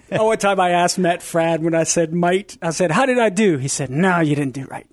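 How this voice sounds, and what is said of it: Cajun accent. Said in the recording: “the raging Cajun ... that Cajun accent ... I'm going to mix in that Cajun accent”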